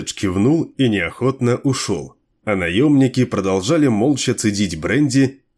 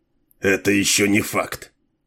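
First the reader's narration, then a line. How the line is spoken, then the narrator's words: Gruff mutter. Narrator (Russian): буркнул Дилуло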